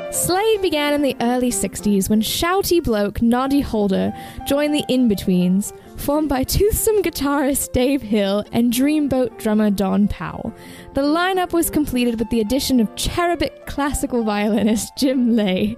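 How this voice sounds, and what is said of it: Put-on British accent. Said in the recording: “I'm going to attempt to do this in a British accent”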